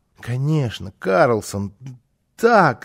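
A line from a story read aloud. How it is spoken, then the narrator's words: Excited stammering child. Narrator (Russian): залепетал малыш, заикаясь от волнения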